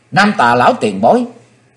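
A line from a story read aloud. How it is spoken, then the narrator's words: Joyful cry. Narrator (Vietnamese): Chí Tôn hoan hỷ kêu lên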